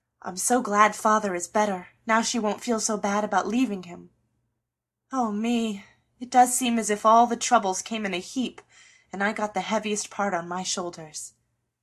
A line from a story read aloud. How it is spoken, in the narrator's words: sighed Joe